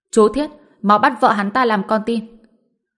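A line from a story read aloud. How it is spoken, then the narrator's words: Loud shout. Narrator (Vietnamese): Trương Triệu Long cách đó không xa hét lớn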